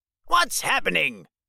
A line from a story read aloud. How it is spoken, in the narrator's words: Gargamel says angrily